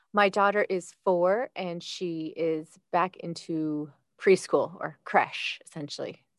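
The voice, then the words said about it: American accent. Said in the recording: “You'll know from ... accent, she's not local to Dublin. She's from the USA”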